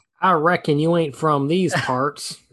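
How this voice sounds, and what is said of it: Bad put-on cowboy accent. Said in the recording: “that accent was tragic. ... It was very tragic. ... That was not your best work.”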